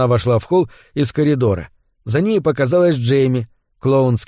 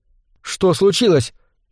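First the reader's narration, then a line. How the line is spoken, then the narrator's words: Frightened question. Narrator (Russian): испуганно спросила она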